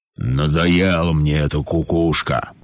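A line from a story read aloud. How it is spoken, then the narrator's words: Lion grumbling. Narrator (Russian): проворчал лев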